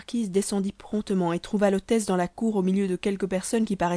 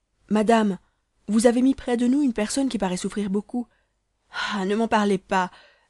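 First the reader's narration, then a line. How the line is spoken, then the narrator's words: Exclaiming. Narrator (French): s'écria la maîtresse de l'hôtel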